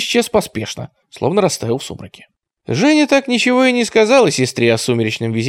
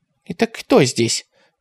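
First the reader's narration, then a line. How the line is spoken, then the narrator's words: Quiet question. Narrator (Russian): тихо спросила она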